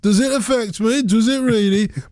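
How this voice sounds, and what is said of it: Put-on Birmingham (Brummie) accent. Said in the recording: “In my Brummy accent”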